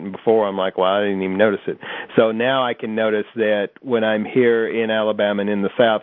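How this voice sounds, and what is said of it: Mild Southern US accent. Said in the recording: “everyone immediately hones in on your accent... a lot of people seem to have a deeper or I don't want to say slower, but yeah, maybe a deeper accent than I do... I'm sure to other areas of the country we all sound alike”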